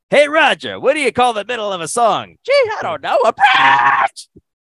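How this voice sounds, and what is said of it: Poor Roger Rabbit cartoon impression. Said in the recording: “my awful Roger Rabbit impression. Didn't even sound remotely like him”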